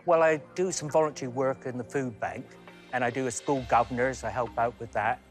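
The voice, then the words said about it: Slight mixed Canadian and West Country accent. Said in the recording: “I detect a slight accent there ... I was originally from Canada, but my accents kind of got mixed up, so everybody thinks I come from Cornwall ... we're very West Country”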